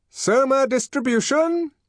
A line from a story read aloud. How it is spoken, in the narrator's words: shouted a loud voice